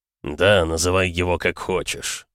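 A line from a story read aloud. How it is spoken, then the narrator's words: Snorting. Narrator (Russian): хмыкнул тот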